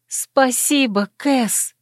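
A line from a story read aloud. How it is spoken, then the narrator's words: Whispered from floor. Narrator (Russian): Я по-прежнему лежала на полу и, еще не успев подняться, прошептала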